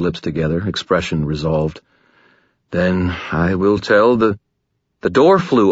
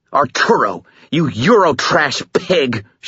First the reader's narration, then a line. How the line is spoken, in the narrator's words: snarled